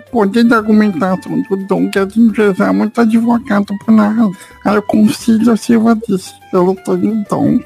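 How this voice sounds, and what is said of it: Baby voice. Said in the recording (Portuguese): “com voz de, de nenê”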